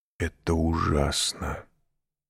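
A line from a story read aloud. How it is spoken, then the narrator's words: Whispering abbot. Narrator (Russian): прошептал аббат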